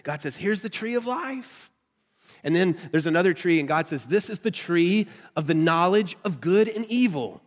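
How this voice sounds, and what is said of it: Nasal Southern American accent. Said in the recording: “my nasally southern accent voice”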